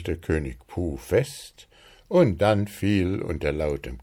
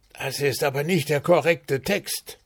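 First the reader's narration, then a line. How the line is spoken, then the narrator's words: Director hissing. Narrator (German): zischte Regisseur Wuschel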